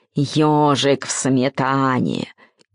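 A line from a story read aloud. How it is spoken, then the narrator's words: Growled. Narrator (Russian): он зарычал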